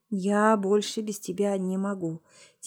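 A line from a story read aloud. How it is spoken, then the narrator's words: Quiet male voice. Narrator (Russian): тихо сказал мужчина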